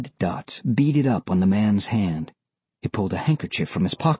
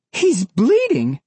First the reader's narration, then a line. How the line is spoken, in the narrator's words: cried the woman